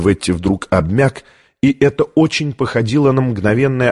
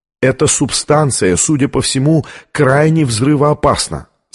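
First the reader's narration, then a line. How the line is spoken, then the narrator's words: Plain. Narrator (Russian): сказал гвардеец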